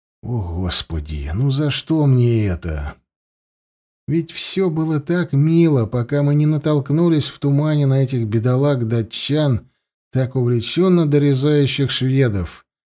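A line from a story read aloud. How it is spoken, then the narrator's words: Thought with deep sigh. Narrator (Russian): подумал сотник и глубоко вздохнул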